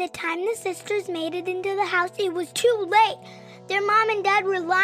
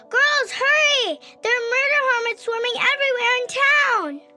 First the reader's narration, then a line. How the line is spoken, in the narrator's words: They yelled